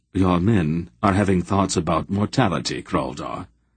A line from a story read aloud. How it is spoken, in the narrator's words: Silk said dryly